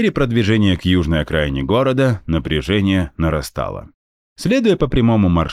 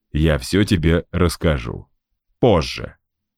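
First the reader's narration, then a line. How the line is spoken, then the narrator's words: Plain. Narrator (Russian): ответил я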